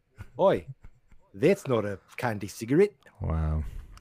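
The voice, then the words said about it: Bad put-on Australian accent, Beatles-like. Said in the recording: “I love your Australian accent ... You you sound more like uh, you're doing a bad Beatles impression”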